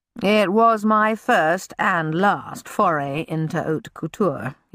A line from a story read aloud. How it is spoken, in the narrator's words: he said dryly